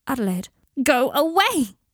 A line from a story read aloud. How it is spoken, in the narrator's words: screamed